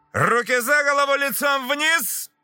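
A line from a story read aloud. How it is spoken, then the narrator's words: Shouted. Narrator (Russian): прокричал капитан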